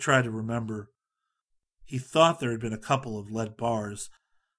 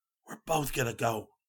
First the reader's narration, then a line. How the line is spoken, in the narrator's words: Scotty whispered